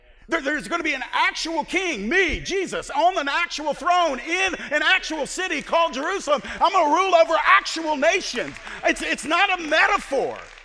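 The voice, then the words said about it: Excited yelling. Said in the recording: “Why am I yelling?”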